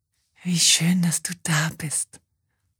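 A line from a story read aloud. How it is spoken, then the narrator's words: Whispered. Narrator (German): flüstert ihr Kurt jetzt nochmal zu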